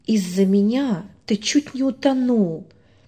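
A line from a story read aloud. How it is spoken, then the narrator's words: Boy's barely audible voice. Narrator (Russian): едва слышно проговорил мальчик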